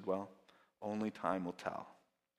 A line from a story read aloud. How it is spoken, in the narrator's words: Calmly the farmer simply answered